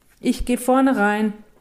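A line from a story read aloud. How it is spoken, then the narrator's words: Calling out. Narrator (German): ruft sie ihm zu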